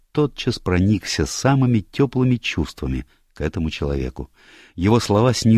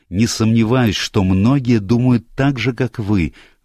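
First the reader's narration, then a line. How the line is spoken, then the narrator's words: Heated exclamation. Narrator (Russian): воскликнул горячо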